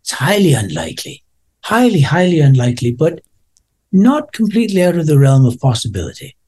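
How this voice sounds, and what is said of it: Put-on Irish accent. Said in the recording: “the Irish accent”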